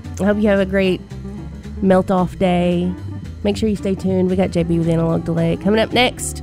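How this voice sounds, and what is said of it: Hoarse, gravelly voice. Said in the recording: “as you can probably hear, I'm about to lose my voice, ... this gravelly, gorgeous voice that I have going on right now”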